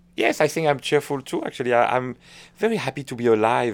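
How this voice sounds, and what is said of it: Recognizable French accent in English. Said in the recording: “she's correcting my French accent ... I do speak with a quite recognizable accent”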